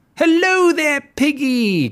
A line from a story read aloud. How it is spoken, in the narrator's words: cried the wolf